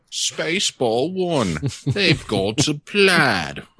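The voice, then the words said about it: Imitates another person's voice. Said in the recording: “my bad Paul Ludlow impression”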